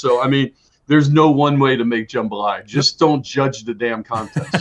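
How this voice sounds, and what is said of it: Slight New Orleans accent. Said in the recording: “I love hearing a little bit of that accent come out ... I heard it come out a little bit ... I'm a little bit of a New Orleans jet”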